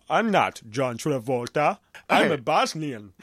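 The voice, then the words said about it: Put-on Bosnian accent. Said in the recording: “he's doing a Bosnian accent”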